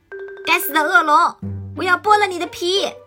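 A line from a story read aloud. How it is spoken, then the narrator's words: Sudden shout. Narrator (Chinese): 他突然喊道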